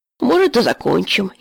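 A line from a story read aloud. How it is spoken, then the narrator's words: Giggling. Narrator (Russian): хихикнул Витька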